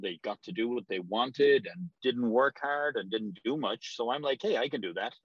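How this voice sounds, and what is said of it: Irish accent. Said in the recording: “that accent doesn't sound native to the Boston area ... From Ireland originally”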